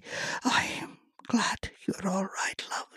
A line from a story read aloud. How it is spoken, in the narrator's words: she whispered